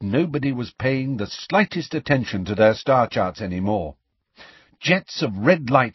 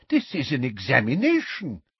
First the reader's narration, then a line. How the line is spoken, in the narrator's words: said Professor Tofty in a scandalized voice